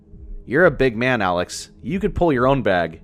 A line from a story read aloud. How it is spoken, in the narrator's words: he said with a laugh